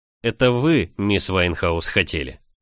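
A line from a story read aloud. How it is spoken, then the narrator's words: Flat expressionless voice. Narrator (Russian): Своим обычным, ничего не выражающим голосом ответил лорд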